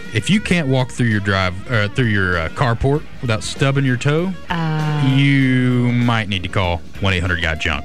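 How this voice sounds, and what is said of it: Jeff Foxworthy impression. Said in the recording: “do my best Jeff Foxworthy impression”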